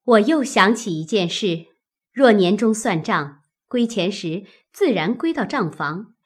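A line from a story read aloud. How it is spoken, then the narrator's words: Laughing. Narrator (Chinese): 探春笑道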